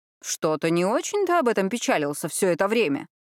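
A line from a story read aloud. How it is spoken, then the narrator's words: Snide interjection. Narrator (Russian): ехидно вставил свою реплику Луис Игнасио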